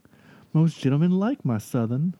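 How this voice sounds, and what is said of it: Jodie Foster's attempted Southern accent. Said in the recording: “what was Jodie Foster and her Southern attempt? Here's a Southern accent attempt.”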